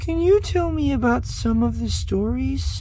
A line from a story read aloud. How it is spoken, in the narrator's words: Chiri asked hesitantly